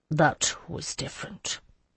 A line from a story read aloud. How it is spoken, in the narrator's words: he said it quietly